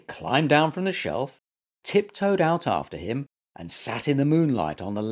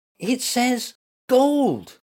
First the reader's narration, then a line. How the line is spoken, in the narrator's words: gasped Getup